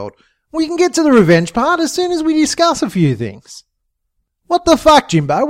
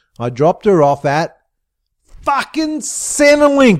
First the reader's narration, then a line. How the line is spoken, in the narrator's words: Sheila yelled at the top of her lungs